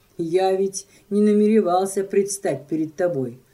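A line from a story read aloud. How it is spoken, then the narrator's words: Plain. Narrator (Russian): ответил он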